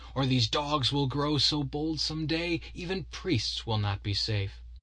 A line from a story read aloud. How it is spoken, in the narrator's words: cried the abbot in furious chafe